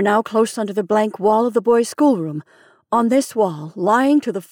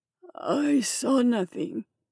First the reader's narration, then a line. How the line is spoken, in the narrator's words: he said faintly